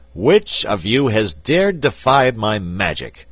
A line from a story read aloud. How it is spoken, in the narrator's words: he shouted in a terrible voice